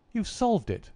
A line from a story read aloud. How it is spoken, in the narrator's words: I cried